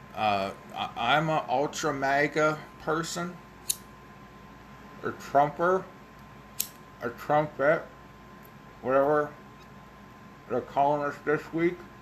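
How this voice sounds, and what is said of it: Mumbled, indistinct speech. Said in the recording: “I'm also relighting a cigar, in case you're wondering why I'm mumbling.”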